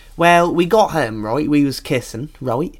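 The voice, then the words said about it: Put-on Norfolk English accent. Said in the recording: “This is no exaggeration. That was his accent. That's the Norfolk accent.”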